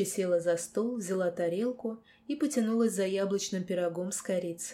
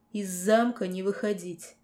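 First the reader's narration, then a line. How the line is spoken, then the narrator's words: Near growl. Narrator (Russian): почти прорычал Сонхейт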